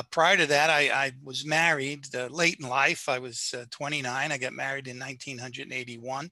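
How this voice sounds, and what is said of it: Brooklyn New York accent. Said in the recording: “I guess you can tell by my accent that I, am a Southerner, you know, South Brooklyn”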